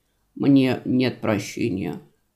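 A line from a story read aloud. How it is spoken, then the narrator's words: Hollow, muffled voice. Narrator (Russian): глухо произнес приятель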